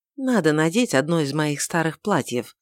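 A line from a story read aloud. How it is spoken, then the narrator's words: Quiet mutter. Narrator (Russian): тихонько пробормотала она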